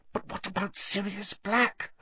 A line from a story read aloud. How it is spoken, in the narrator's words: Hermione hissed